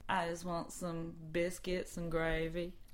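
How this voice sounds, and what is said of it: Put-on Texas accent. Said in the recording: “We promise we'd do a Texas accent.”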